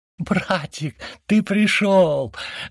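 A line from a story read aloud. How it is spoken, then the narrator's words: Excited shriek. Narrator (Russian): завопила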